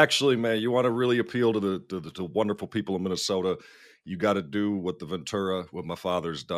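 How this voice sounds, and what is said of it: Usual voice. Nothing is said of it.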